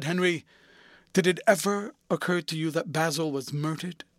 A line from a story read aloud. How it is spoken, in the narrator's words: Lord Henry yawned